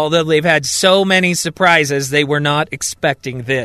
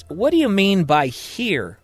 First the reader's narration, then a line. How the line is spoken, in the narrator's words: asks